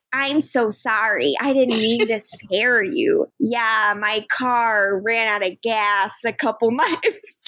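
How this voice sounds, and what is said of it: Exaggerated American accent, Fargo-like. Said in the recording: “does his American accent ... I think you're turning it a little too Fargo ... it wasn't good ... It's very unnatural”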